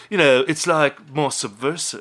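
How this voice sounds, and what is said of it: Poor David Bowie impression. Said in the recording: “do my David Bowie voice ... Oh, that's a terrible David Bowie ... What Chris Young did to David Bowie, ... just did with David Bowie's voice”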